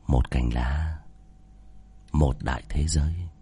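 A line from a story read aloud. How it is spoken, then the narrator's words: Whisper in ear. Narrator (Vietnamese): chỉ thì thầm vào tai của Nữ Mẫu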